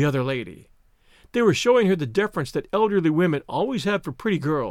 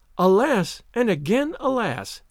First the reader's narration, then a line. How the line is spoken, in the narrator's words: exclaimed Olivia